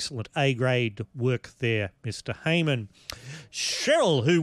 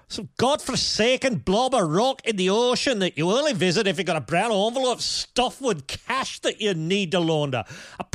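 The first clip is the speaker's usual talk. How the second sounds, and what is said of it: Attempted Scottish accent, Malcolm Tucker. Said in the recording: “Malcolm Tucker-level language and with the accent, please. I can't do a Scots accent. ... I can't do Scots.”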